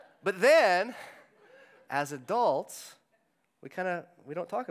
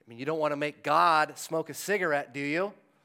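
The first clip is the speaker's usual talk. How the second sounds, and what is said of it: Impression of heavy-handed youth pastor. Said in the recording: “That was my impression of like a heavy-handed youth pastor.”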